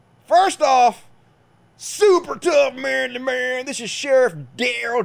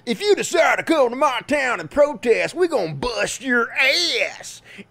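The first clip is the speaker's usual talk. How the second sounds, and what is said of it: Put-on redneck voice. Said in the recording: “doing the redneck voice”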